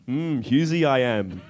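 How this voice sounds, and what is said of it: Yoda-style character voice. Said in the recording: “Is that ... or Arnold Schwarzenegger? ... It was supposed to be Yoda. ... do a killer impersonation”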